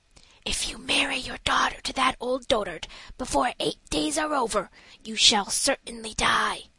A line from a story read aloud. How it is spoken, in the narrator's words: whispered in her ear